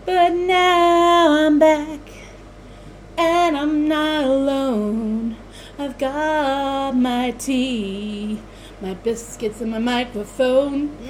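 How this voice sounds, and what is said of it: Singing in an American accent. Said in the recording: “You still have an American accent, though.”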